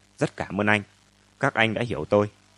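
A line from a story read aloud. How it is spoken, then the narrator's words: Soft, serious, solemn. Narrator (Vietnamese): Ông Mậu nói nhỏ nhẹ, nhưng đầy vẻ nghiêm túc trang trọng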